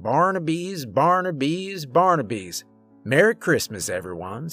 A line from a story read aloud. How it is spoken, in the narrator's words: Santa said